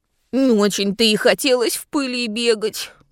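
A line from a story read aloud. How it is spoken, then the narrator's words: Group grumbling. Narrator (Russian): проворчали друзья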